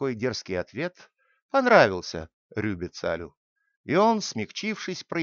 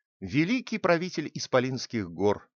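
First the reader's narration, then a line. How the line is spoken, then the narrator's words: Plain. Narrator (Russian): ответил хитрец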